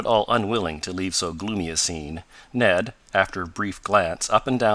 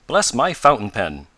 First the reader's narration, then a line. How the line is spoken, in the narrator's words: exclaimed Mr